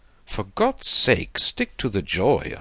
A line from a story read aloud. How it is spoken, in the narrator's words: exclaimed